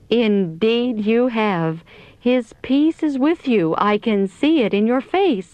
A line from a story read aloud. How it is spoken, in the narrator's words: exclaimed